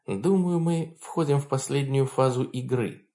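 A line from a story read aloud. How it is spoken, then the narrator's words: Quiet, private words. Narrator (Russian): сказала Хонор тихо, чтобы слышал только он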